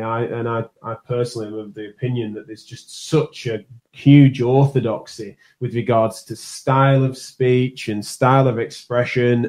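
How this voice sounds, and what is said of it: Strong northern English accent. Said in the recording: “my accent's a strong northern one”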